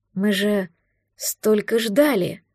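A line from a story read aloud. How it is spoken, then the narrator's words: Desperate whisper. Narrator (Russian): Прошептал он, исказилось от отчаяния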